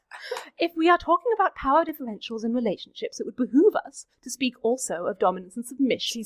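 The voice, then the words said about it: Exaggerated put-on accent. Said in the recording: “I can up the accent if that will help ... Step back to the normal one”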